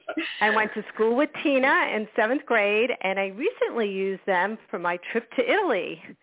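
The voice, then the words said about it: New York accent. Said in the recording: “you'll detect my New York accent”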